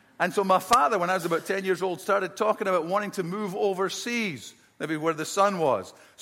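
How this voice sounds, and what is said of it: Scottish accent. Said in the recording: “I grew up in Scotland, as you can probably tell from my accent. I'm from the deep south of Scotland.”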